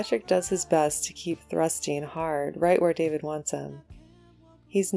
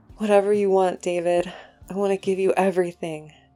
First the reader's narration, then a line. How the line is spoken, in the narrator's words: says, panting with the effort